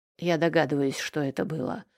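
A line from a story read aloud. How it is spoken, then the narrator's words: Cold reply. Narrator (Russian): холодно ответил он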